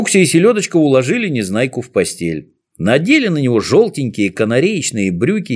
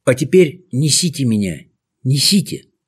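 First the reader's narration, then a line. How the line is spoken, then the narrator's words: Broken, faltering whisper. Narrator (Russian): зашептал прерывающимся голосом Незнайка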